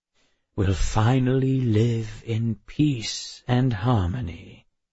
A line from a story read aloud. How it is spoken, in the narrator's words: he said, his voice smooth and reassuring